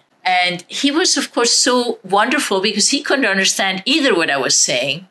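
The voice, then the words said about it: Speaks with a foreign accent. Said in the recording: “maybe sometimes my accent helps me. You know, people say, where are you from?”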